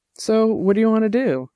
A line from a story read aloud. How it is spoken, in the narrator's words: Dex asked